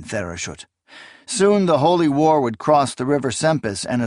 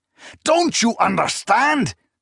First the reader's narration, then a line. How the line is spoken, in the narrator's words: Zynemus exclaimed